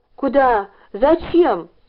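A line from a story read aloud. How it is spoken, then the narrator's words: Shout. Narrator (Russian): закричал Ленька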